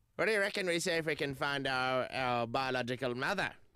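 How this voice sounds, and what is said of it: Old lady voice. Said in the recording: “It's my old lady voice. ... That was actually pretty good.”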